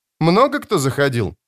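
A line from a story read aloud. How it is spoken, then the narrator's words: Forced cheerful question. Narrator (Russian): спросила Ноно, пытаясь говорить бодро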